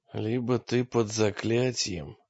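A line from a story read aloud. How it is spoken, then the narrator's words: Hoarse. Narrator (Russian): хрипло сказал Агимас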